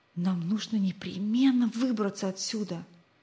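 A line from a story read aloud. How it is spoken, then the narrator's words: Whisper. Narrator (Russian): прошептал Рик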